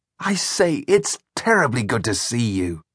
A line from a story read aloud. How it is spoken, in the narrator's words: exclaimed joyfully